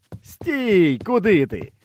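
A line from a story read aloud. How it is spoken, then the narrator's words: Cheerful calling out. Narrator (Ukrainian): весело загукав до мене секретар сільради Спиридон Халабуда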